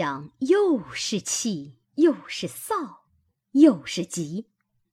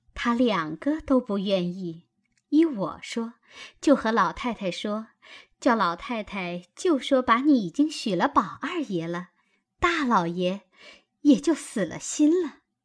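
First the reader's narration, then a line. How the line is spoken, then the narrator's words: Laughing. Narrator (Chinese): 袭人笑道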